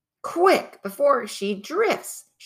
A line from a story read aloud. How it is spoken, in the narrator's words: shouted Peter